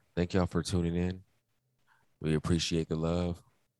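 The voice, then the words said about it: Smooth radio DJ voice. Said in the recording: “What sound like on fucking jazz radio or some smooth jazz ... that's my radio voice ... you got a Starbucks voice now”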